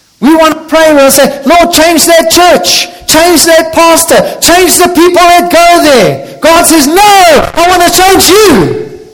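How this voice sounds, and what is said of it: Shouting preacher. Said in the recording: “I'm sorry, I'm shouting.”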